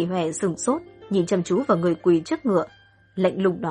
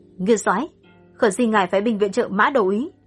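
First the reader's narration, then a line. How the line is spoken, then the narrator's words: Loud, respectful. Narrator (Vietnamese): nàng cúi đầu lớn tiếng nói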